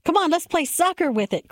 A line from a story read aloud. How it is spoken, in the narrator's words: Chris shouted